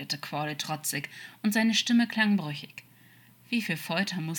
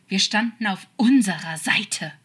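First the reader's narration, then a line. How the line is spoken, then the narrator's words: Hissed, a little desperate. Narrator (German): zischte er ihm zu, ein wenig verzweifelt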